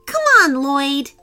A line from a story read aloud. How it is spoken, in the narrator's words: Sophia exclaimed, running into the house